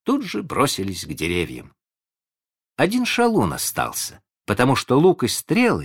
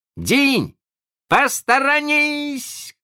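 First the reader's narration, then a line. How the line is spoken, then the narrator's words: Shout. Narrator (Russian): крикнул он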